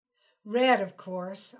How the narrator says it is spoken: laughed

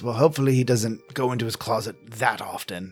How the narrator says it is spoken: he mumbles

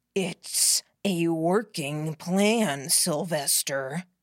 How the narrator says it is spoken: Catcher growled

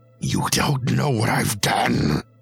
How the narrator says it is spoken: Humboldt said with a growl

